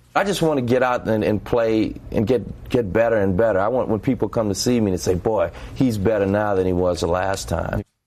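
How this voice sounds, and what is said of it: New Orleans accent. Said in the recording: “my New Orleans accent.”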